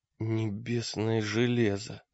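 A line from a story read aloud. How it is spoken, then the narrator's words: Mumbling. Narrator (Russian): пробормотал Олег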